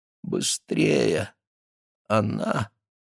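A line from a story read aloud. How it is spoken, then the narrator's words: Weak mumble. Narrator (Russian): она промямлила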